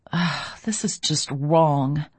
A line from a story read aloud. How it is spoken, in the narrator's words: I muttered